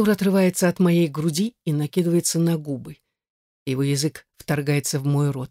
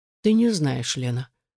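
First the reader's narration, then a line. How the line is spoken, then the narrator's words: Completely calm reply. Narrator (Russian): совершенно спокойно отвечает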